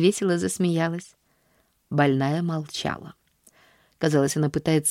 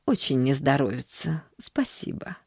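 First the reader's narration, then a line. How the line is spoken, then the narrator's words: Apathetic mumble. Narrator (Russian): пробормотала миссис Сноу, впадая в свою обычную апатию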